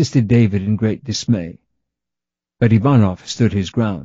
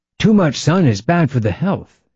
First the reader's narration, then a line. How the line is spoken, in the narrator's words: said Ivanov